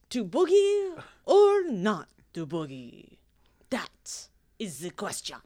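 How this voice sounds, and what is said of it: Unintended French accent. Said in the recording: “I think I just like be French right there ... try a French accent? ... But not on purpose.”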